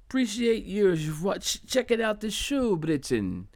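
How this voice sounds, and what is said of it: Bad put-on British accent. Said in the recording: “My British accent is very bad. ... Yeah, my accent is terrible.”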